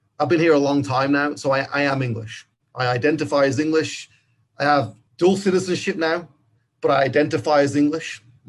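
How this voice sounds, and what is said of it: English accent. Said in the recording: “My accent's English.”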